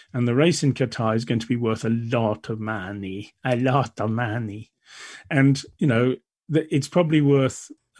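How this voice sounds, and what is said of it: Put-on Italian accent. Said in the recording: “Italian accent? What were you going for there? ... It was just an accent.”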